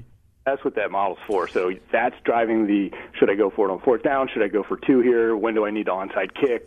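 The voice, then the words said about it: Baltimore accent. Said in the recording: “that's my Baltimore accent coming”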